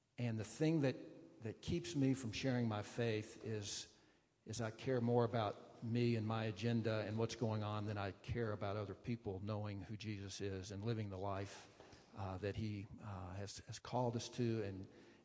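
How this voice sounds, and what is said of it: Southern US accent. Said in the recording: “back through the Southeast. You can tell from my accent that's where I grew up.”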